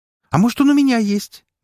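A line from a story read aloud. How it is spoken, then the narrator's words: Cheerful declaration. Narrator (Russian): весело заявила Уна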